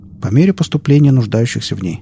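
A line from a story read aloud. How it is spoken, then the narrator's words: Plain. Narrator (Russian): ответил доктор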